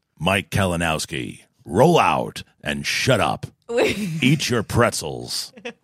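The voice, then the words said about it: Deep robotic movie-character voice. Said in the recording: “my Optimus Prime impression”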